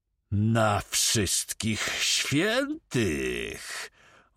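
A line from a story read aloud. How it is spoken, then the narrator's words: Menacing growl. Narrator (Polish): warknął Drągal, przyjmując groźny wyraz twarzy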